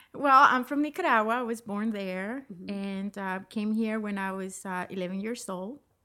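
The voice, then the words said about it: Nicaraguan accent in English. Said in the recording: “as you might hear there, ... has an accent... Barely noticeable... I never lost the accent”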